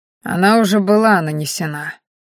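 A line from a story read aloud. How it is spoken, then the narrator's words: Gloomy reply. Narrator (Russian): мрачно ответил Мелим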